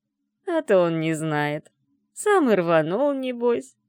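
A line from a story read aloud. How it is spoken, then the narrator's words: Laughing cook. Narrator (Russian): засмеялась кухарка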